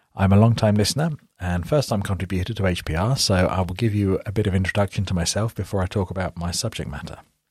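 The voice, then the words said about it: British accent. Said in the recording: “you might recognise from my accent that I'm British, so that's in the UK”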